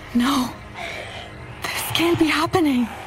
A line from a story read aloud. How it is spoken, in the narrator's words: I gasped